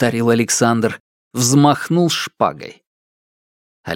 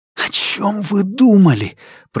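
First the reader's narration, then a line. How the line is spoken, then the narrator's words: Anxious breathless hiss. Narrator (Russian): прошипел Алексей, задыхаясь от тревоги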